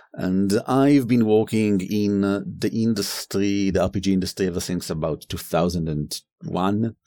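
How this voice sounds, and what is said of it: Fairly harsh foreign accent. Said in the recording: “my accent is a bit harsher than Aviv's”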